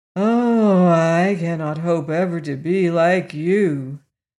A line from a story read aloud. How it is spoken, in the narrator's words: sighed the sawhorse